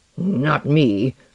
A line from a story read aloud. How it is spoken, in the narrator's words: Lenoir growled